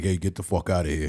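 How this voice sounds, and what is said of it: Deep tough-guy voice. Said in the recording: “Big dude with a deep voice.”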